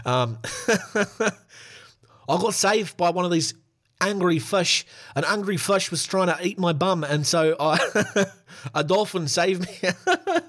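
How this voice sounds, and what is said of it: Bad put-on New Zealand accent. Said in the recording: “Such a bad New Zealand accent ... That's the same as an Australian accent there ... So bad”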